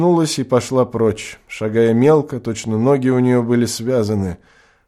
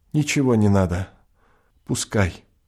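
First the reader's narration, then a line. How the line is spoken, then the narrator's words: Quiet and clear. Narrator (Russian): тихо и внятно сказала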